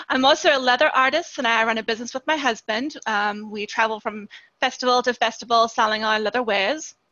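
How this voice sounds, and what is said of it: South African accent. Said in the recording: “I am from South Africa, so I do have an accent.”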